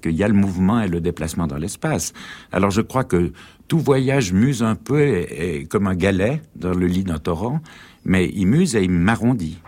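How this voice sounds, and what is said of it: Swiss French accent. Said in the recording (French): “la voix de Nicolas Bouvier ... cet accent ... Suisse, on entend vraiment l'alpage”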